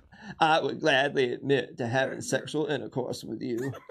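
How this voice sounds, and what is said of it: Poor imitation of another person's voice. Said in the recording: “his Bill Clinton impression... It's terrible.”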